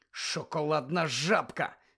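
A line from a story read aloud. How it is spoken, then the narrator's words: Angry hiss. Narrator (Ukrainian): злісно засичав він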